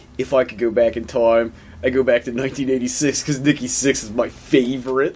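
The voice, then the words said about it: Thick put-on Baltimore accent. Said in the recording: “that thick Baltimore accent.”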